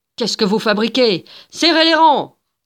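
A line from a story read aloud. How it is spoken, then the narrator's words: Officers thundering. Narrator (French): tonnèrent les officiers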